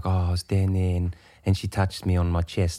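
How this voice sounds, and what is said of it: Soft, camp South African accent. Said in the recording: “he's like really camp, and he's got like the softest like South African accent”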